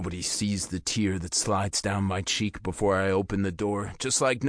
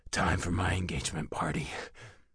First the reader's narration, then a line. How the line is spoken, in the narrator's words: whispering